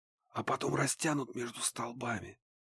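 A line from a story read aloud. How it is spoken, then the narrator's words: Whisper. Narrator (Russian): прошептал Ларс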